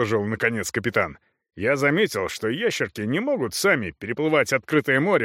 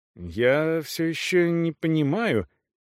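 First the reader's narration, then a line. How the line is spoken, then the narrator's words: Uncertain. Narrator (Russian): неуверенно произнес Г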